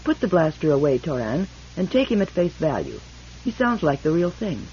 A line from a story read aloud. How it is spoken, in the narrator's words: Beta said calmly